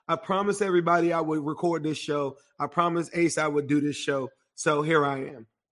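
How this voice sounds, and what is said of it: Hoarse, strained voice. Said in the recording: “I apologize for my voice ... I sound terrible. I scream my heart out.”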